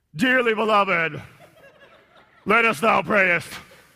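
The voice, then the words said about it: Exaggerated eerie solemn prayer voice. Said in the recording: “why do you sound like a horror movie overdub voice?”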